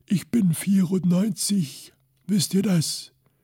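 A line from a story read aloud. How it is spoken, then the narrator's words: Croaky old voice. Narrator (German): sagte er mit seiner krächzenden Stimme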